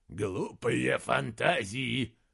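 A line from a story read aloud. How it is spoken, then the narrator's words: Grumbled. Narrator (Russian): проворчал Анодис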